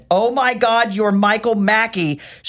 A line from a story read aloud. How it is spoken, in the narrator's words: she yelled to everyone within earshot